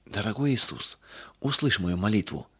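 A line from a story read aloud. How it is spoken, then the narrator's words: Sobbing whisper. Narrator (Russian): всхлипывая, прошептала она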